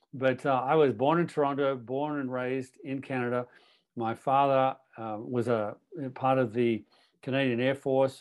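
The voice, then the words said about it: Australian accent. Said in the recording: “You don't even sound Canadian. That's true. I have a different accent. ... I ended up down in Australia with this accent”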